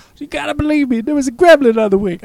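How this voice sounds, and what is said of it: Put-on accent. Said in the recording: “I don't know why I did that accent for that.”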